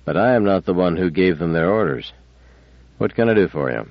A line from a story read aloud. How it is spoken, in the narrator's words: said Bailey stiffly